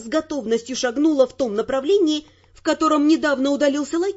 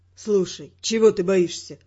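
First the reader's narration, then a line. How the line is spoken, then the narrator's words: Weary question. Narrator (Russian): Устало спросил он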